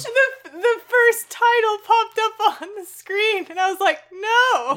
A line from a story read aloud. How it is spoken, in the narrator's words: You wailed